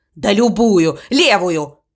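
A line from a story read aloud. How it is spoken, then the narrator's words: Impatient bark. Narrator (Russian): рявкнул Эд, теряя терпение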